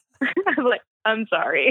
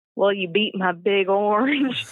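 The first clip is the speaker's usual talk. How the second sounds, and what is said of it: Peyton Manning impression, Southern accent. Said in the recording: “it is like Southern accent.”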